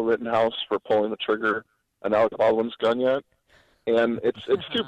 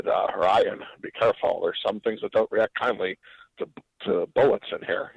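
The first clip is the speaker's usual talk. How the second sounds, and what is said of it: Weak Sean Connery impression. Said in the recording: “not a great Sean Connery impersonation”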